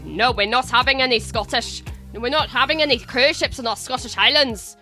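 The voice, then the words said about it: Poor imitation of Scottish accent. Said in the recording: “That was an awful accent, I'm sorry.”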